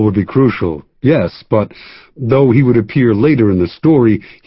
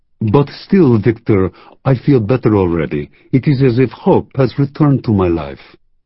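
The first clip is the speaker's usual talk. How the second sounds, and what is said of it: Put-on French accent. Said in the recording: “in his French accent”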